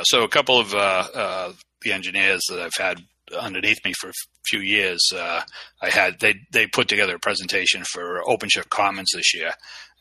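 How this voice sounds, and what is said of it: Heavy Boston accent. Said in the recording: “a heavy Boston accent”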